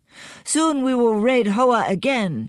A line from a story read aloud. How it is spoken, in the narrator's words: shouted young Gim